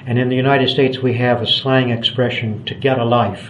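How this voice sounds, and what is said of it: American accent. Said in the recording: “You may hear from my accent that I was born in the United States.”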